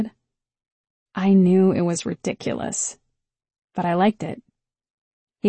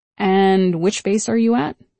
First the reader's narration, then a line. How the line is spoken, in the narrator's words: he asked